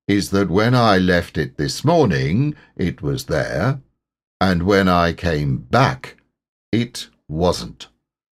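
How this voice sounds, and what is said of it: Melancholy, gloomy character voice. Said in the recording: “in his most melancholy voice,”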